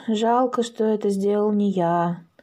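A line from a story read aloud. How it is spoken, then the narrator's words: Father sighing. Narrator (Russian): вздохнул папа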